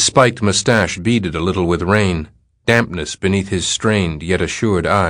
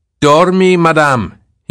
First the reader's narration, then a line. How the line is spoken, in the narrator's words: he said, raising his voice a little